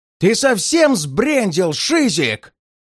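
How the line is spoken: Yelling through loudspeaker. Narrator (Russian): Заорал на меня динамик голосом куратора из конторы

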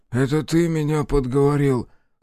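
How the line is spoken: Weak moan. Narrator (Russian): слабо простонал из телеги толстяк

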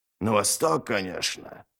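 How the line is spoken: Gloomy. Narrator (Russian): мрачно сказал Ральф

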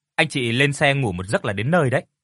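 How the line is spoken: Smiling voice. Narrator (Vietnamese): anh tài xế mỉm cười nói

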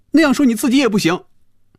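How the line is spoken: Loud. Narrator (Chinese): 菲比大声说

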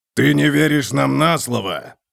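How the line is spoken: Growling. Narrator (Russian): прорычал Готрек

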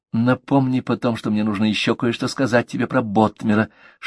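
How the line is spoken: Whisper. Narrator (Russian): шепнула Мэг

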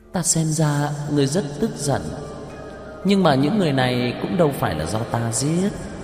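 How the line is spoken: Smiling, contemptuous. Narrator (Vietnamese): Cổ Kỳ Nguyệt mỉm cười, xem thường nói

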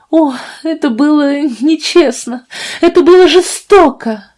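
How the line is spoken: Sobbing, trembling. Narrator (Russian): рыдала Фиби, дрожа

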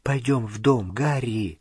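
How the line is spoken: Whisper. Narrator (Russian): прошептала Гермиона

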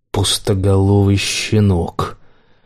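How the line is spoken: Rich bass voice. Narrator (Russian): Архипов говорил сочным басом, не похожим на его обычно холодный баритон

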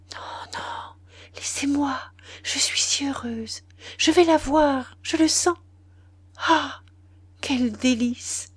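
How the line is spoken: Breathy light voice. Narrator (French): Elle dit alors, d'une voix légère comme un souffle

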